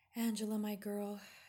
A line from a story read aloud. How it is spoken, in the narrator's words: sighed again